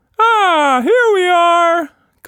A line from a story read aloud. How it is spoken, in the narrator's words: Quatsch Monster cried